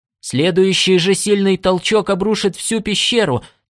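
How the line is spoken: Alarmed shout. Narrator (Russian): тревожно крикнул Норт

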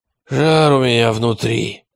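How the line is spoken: Hoarse wheeze. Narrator (Russian): хрипел Радищев

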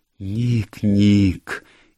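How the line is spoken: Muffled anguished cry. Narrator (Russian): закрыв ладонями лицо, он приглушенно вскрикнул

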